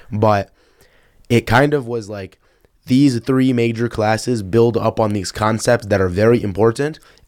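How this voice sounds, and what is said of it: Slightly raspy voice. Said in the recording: “my voice is a little raspy, ... is because I was presenting this morning”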